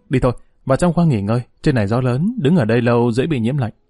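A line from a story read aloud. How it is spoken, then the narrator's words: Sighing, then hurried. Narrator (Vietnamese): Dương Lăng thở dài, chợt thấy gió nổi lên, vội vàng nói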